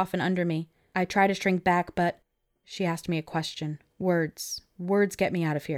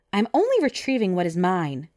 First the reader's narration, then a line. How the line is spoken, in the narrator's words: she snaps